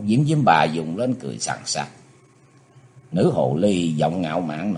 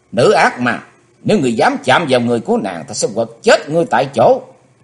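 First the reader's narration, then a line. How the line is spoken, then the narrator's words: Furious, through gritted teeth. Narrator (Vietnamese): Cơn lửa giận dữ đột nhiên cháy sùng sục ở trong lòng của Chí Tôn, chàng nghiến răng căm thù nói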